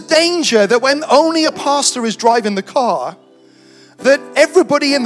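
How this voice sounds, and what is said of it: Usual voice. Nothing is said of it.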